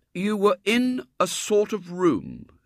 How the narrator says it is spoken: said William slowly

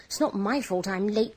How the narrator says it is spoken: panted Thomas

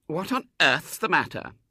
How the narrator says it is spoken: said indignantly

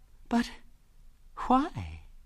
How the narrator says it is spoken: said Ethel, in a very sweet voice

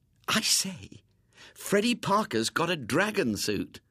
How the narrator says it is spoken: said Ginger excitedly

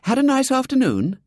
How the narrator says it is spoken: Brown brightly

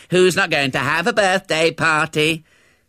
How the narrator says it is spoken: jeered

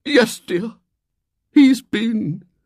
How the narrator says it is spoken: she said brokenly

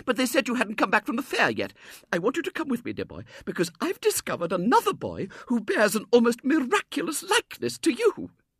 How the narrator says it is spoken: exclaimed

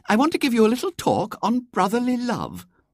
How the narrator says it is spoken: said Miss Lomas brightly

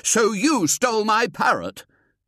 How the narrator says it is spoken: Simultaneously, they shouted

